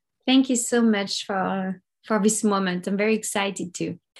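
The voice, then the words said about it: French accent. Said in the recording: “there's an accent there ... I'm French. I'm from Paris.”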